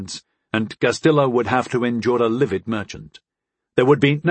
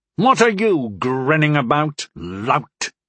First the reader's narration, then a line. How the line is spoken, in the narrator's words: Nexus snapped at him